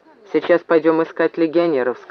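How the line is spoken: Plain. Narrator (Russian): сказал Максим

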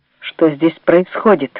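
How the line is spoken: Through gritted teeth. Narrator (Russian): выдавил он сквозь зубы

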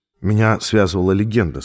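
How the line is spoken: Dry. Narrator (Russian): сказал я сухо

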